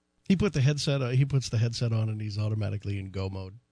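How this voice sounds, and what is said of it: Imitates another person's voice. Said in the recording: “my impression. That's my impression of him.”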